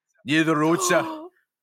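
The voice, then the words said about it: Vague put-on northern English accent. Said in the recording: “I am a man of many accents, but basically they're very generic accents. ... So I'm going to go for a vague northern accent. It will drift. ... She's got a bit of an edge.”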